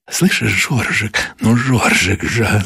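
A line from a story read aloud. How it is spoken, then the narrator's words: Hot, breathy whisper. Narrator (Russian): зашептала она, жарко дыша ему в ключицу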